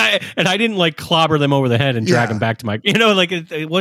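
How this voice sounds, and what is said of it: Usual voice. Nothing is said of it.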